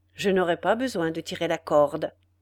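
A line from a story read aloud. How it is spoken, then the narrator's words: Plain. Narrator (French): répondit le bourreau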